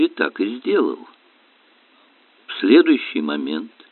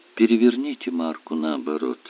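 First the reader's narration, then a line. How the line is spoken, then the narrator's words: Calm voice. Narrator (Russian): Магаон добавил тем же спокойным голосом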